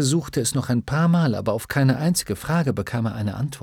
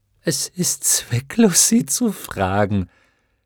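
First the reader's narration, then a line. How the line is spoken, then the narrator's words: Giggling voice. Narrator (German): eine kichernde Stimme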